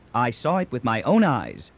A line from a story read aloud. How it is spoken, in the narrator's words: said Mandel